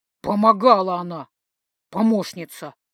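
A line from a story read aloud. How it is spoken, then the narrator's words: Displeased growl. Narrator (Russian): рыкнул Дан недовольно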